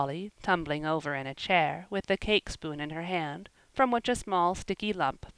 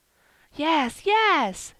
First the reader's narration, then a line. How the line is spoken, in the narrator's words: cried Phronsie, perfectly delighted at being at last understood